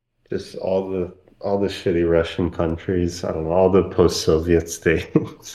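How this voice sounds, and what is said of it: Slight Eastern European accent. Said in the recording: “you have a little bit of an accent ... Ukraine”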